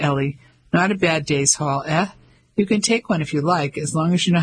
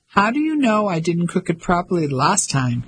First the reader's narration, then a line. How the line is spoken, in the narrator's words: She asked, laughing